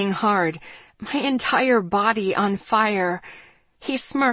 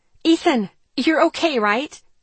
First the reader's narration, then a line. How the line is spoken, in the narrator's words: I asked, desperately